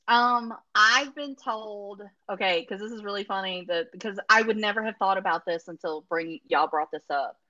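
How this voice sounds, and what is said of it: Strong regional accent. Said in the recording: “someone that has my accent ... someone who talks like an idiot ... because of my accent”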